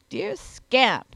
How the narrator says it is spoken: repeated he with a snort

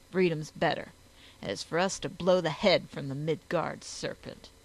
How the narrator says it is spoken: growled to himself

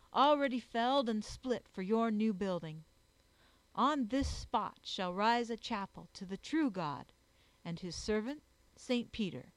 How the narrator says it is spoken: cried

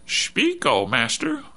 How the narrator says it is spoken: Bud said, imitating a squeaky robot voice

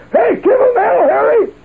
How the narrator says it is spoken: Truman was hollering

